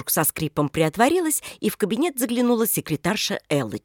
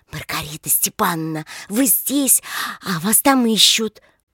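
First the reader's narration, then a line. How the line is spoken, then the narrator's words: Comical loud whisper. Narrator (Russian): смешно, громко шепотом произнесла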